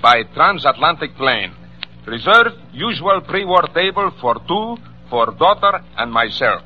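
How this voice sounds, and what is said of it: Put-on Russian accent. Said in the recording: “accent. ... Russian? ... How's my accent? ... It's excellent!”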